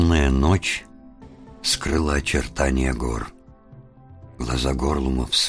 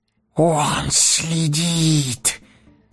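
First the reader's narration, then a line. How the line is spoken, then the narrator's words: Hoarse hiss. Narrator (Russian): просипел Горлум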